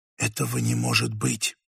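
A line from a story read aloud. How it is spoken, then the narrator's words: Whispered. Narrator (Russian): вымолвила Женевьева и чуть погодя добавила шепотом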